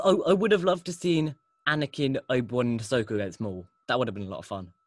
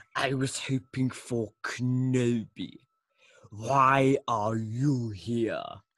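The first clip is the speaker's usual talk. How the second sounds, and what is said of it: Poor imitation of a villain character. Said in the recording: “my terrible Maul impression”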